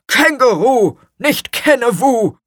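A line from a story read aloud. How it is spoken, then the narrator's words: Stern. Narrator (German): sagte Gurkenhut streng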